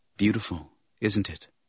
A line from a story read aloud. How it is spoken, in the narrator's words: He said softly